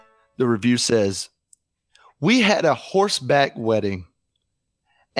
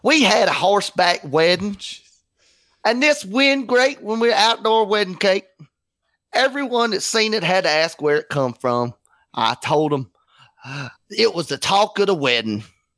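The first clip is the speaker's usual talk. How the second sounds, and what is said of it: Put-on regional accent. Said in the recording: “I think I need to read that in a different accent because it's very obvious where this is coming from.”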